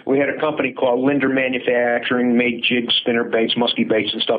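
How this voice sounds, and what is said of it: Slight Chicago accent. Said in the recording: “You might be able to tell by my voice that I got a little bit of an accent. And I was born and raised in Chicago. And apparently I still haven't gotten that accent out of my system”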